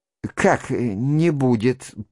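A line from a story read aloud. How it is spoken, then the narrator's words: Stunned mutter. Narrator (Russian): пробормотал жених, совсем уже ошеломленный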